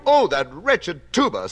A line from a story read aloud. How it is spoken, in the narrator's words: snapped the violins